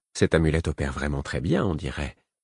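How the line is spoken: Murmured. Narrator (French): me murmura Gina

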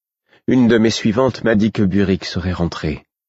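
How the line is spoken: Plain. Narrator (French): dit-elle

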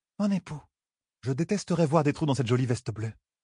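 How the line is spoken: Private murmur. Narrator (French): murmura Fayle pour les seules oreilles de son mari

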